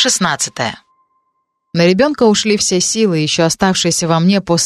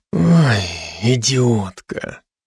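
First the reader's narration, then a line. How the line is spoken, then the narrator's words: Quiet hiss. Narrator (Russian): Прошипел он так, чтобы никто, кроме меня, не услышал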